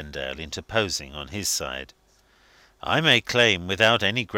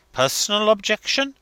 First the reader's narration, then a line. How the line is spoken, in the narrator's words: he exclaimed